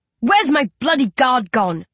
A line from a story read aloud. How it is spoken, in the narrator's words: Riley bellows